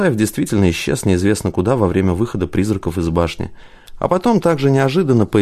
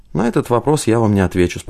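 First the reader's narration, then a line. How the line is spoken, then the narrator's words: Calm. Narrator (Russian): спокойно сказал Ивашура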